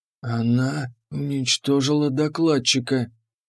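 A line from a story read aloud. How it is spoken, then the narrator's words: Pale whisper. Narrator (Russian): прошептал Миллер бледнее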